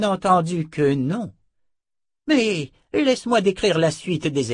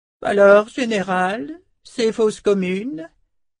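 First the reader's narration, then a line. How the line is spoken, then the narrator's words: Almost playful tone. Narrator (French): lança-t-il d'un ton presque badin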